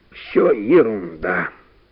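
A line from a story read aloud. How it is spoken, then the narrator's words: Noisy sigh, professor. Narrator (Russian): шумом вздохнул профессор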